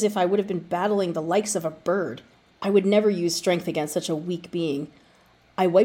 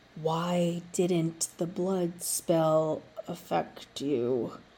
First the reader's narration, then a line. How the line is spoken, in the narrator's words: he asked slowly